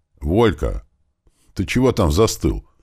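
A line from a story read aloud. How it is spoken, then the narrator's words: Cheerful question. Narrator (Russian): весело поинтересовалась мама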